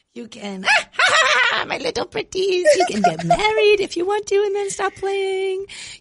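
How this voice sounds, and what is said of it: Witch character voice. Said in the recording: “not all witches sound the same ... talk like a witch”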